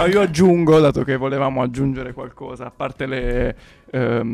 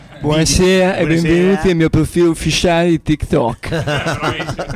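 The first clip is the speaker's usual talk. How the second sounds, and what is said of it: Imitates another person's voice. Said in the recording (Italian): “la faccio da anni questa imitazione”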